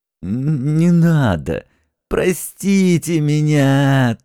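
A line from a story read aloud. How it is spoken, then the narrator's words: Whimpering plea. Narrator (Russian): тут же заскулил Зингельхофер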